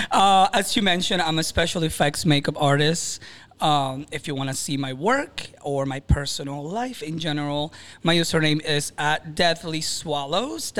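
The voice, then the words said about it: Venezuelan Spanish accent. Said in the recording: “I was born and raised in Venezuela, Maracaibo to be specific. I do have an accent, so if you can't understand me”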